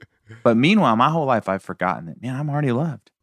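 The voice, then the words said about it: Southern American accent. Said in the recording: “He has to have an accent, right? ... it's very Southern because I live in Tennessee.”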